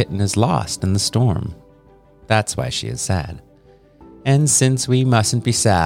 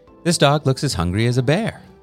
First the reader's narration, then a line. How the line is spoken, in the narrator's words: said Ezra